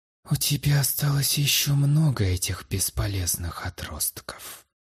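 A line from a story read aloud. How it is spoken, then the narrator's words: Relentless hiss in ear. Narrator (Russian): непреклонно зашипел на ухо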